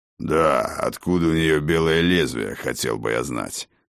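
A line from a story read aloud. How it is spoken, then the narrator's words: Gloomy interjection. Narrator (Russian): мрачно вставил Хрофт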